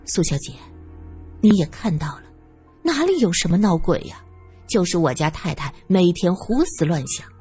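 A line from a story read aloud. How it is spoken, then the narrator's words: Quiet voice. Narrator (Chinese): 王妈 小声说道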